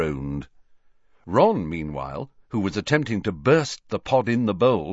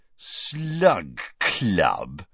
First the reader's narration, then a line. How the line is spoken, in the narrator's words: repeated Ron, with a sneer worthy of Malfoy